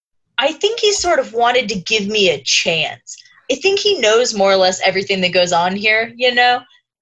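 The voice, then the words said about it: Imitates another person's voice. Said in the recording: “you delivered that whole thing in your mic impression ... That is your mic impression”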